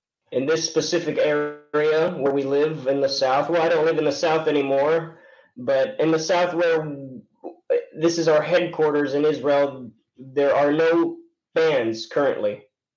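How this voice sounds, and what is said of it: American English accent. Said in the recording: “you sound like you're American, man. You have like no accent at all whatsoever”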